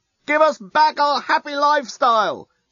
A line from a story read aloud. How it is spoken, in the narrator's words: shout the Yassican demonstrators unintelligibly